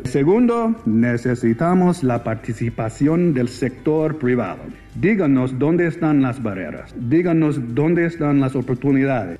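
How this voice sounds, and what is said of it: Clear North American accent. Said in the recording (Spanish): “un claro acento norteamericano”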